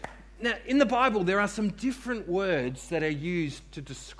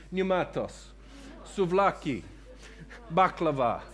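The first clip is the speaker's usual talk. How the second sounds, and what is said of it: Mock Greek accent. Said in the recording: “you've got to put on your very best Greek accent”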